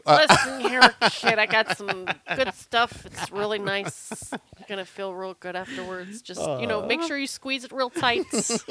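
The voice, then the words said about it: Put-on drunk voice. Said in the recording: “do your drunk voice”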